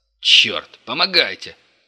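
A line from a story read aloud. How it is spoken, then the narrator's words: Shouted. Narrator (Russian): крикнул Крот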